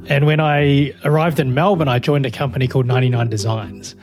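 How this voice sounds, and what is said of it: New Zealand accent. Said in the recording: “I'm from New Zealand originally, hence the accent.”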